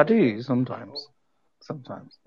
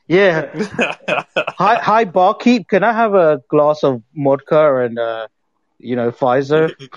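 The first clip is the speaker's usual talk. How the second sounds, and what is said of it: Put-on American accent. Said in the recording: “Don't ever do American accent.”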